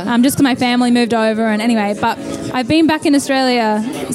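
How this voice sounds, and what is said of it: Australian accent. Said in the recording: “you still sound really Australian”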